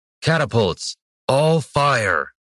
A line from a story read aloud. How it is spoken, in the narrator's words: Brannis shouted back to the siege crews